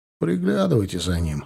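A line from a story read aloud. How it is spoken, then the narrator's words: Amused grunt. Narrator (Russian): хмыкнул я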